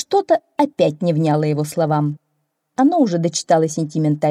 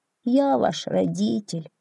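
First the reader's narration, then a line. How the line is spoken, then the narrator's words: Sad little donkey. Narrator (Russian): грустно сказал маленький ослик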